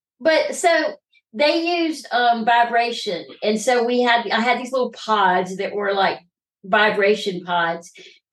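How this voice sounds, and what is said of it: Rural redneck American accent. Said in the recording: “I'm a redneck ... I love this accent”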